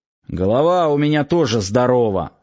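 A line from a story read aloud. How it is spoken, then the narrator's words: Grumpy old man's grumble. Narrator (Russian): сварливо пробурчал старик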